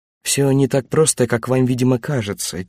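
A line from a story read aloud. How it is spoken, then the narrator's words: Quiet. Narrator (Russian): тихо сказал Ван Левен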